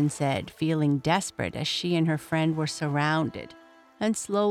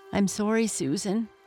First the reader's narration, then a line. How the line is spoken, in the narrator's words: he said sadly